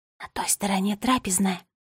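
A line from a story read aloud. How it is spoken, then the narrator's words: Whisper. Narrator (Russian): прошептала фея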